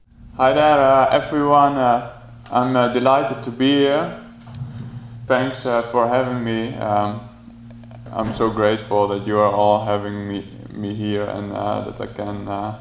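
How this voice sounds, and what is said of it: Mild non-native Dutch accent. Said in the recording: “pardon his accent a little bit ... for an English as a second language person, it's pretty spectacular ... all the way from the Netherlands”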